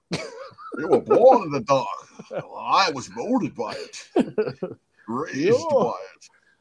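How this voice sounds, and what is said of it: Bad impression of movie villain voice. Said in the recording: “I'm doing Bane impressions, bad ones at that.”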